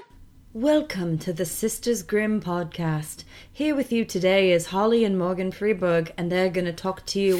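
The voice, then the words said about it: Weird put-on accent. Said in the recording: “was doing a weird accent”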